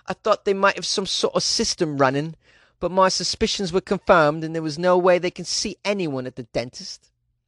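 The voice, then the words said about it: Put-on British accent. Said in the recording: “How's that British accent, by the way? Is that okay?”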